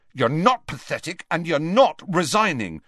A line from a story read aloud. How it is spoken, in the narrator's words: said Harry fiercely